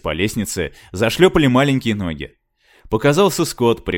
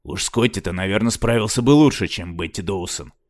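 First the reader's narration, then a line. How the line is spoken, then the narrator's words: Grumbled. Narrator (Russian): проворчал Парадин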